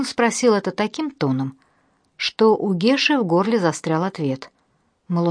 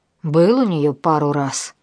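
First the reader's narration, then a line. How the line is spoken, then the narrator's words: Reluctant mumble. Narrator (Russian): неохотно промямлил Геш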